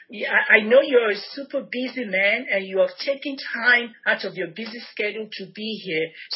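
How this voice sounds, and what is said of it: Nigerian accent. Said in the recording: “your wonderful accent ... Nigeria ... with your accent”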